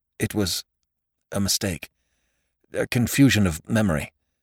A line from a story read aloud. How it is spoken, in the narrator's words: Faxon heard himself stammer